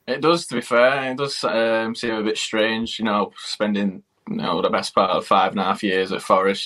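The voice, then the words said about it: Manchester English accent. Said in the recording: “People can tell by your accent that you're a Manchester lad.”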